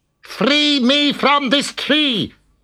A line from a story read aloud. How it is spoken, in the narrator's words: yelled the devil